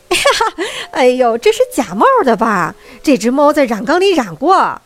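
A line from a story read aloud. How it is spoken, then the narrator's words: Crowd laughing and shouting. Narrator (Chinese): 观众们却爆笑出一阵大笑，他们大喊大叫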